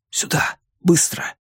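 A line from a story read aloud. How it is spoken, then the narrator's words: Whispered. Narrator (Russian): прошептал он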